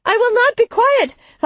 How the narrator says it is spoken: Helwaz shouted

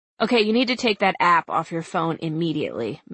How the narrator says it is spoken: Mag said

